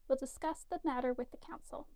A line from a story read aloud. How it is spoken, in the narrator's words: he said in a perfectly mild tone